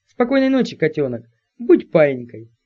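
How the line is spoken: Tender purr. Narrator (Russian): ласково промурлыкал этот

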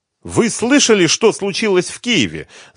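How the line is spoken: Shouting. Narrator (Russian): закричала она ему с порога

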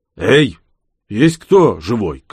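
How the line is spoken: Shout. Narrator (Russian): крикнул он

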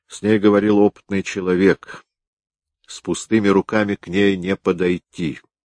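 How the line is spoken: Plain. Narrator (Russian): ответил Гуров

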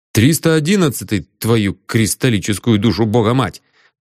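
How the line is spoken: Furious bark. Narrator (Russian): гаркнул я с яростью

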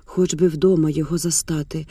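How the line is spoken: Devastated whisper. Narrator (Ukrainian): прошепотіла спустошено

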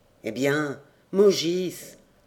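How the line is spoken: Grumbled. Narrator (French): grommela-t-elle

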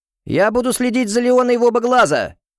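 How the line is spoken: Shout from behind. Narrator (Russian): прокричал сзади Уокеншоу

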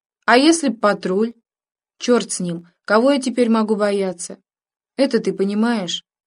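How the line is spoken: Simple, dejected tone. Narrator (Russian): Володька сказал это без рисовки, просто и как-то уныло

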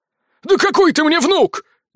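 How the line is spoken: Angry tearful bark. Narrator (Russian): гаркнул он, и на его глаза навернулись злые слезы

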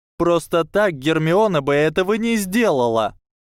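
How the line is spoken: Shouting, near tears. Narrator (Russian): кричала Мэнди Броклхёрст, чуть не плача

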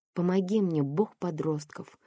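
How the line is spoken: Silent inner plea. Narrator (Russian): взмолилась я про себя

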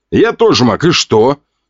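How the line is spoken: Snorting reply. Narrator (Russian): хмыкнул в ответ

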